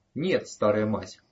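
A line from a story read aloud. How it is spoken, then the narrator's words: Even voice. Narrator (Russian): ровным голосом ответила Сьюзан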